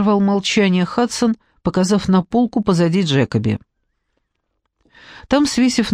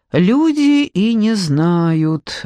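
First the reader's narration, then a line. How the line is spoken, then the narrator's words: Thin flat small voice. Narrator (Russian): ответил человечек невыразительным тонким голоском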